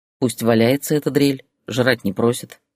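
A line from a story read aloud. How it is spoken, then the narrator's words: Calm reply. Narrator (Russian): спокойно ответил Ярослав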